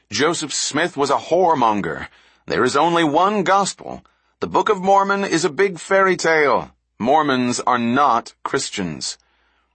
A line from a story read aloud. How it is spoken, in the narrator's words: shout angrily